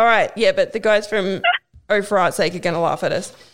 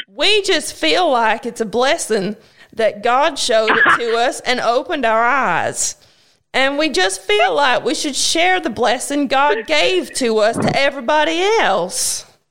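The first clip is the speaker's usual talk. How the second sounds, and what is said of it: Put-on accent reading a quote. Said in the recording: “You have to do the accent.”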